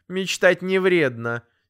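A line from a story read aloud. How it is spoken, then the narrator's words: Angry curt retort. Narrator (Russian): сердито отрезала мама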